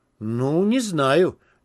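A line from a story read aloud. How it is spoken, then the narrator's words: Uncertain grumble. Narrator (Russian): неуверенно буркнул Гейл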